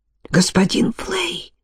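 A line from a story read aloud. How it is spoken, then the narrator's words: Passionate insistent whisper. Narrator (Russian): со страстной настойчивостью прошептал он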